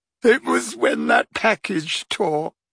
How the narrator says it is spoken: sobbed Leanne

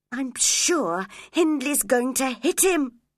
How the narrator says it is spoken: cried Catherine

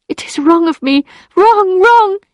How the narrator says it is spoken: she cried

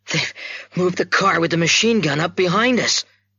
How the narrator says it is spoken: he gasped

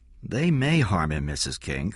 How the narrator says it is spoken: Corella said calmly

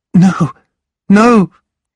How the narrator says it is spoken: cried Nell

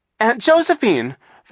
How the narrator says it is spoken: Violet cried

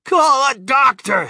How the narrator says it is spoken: shouted Mr

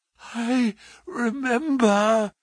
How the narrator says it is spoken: Holmes gasped

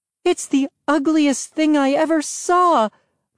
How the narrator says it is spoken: Mom cried

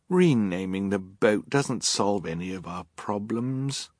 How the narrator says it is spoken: Violet said wearily

